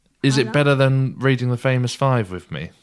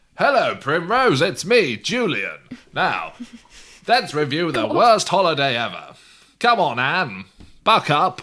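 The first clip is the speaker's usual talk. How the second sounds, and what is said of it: Storybook character impression voice. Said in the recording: “my Famous Five Julian impression”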